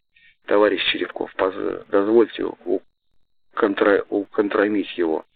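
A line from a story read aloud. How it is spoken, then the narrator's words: Young man whispering. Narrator (Russian): шептал молодой парень Петр Бустров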